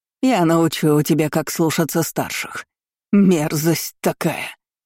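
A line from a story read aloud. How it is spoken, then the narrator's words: Relentless hiss. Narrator (Russian): Не унимаясь, шипела служанка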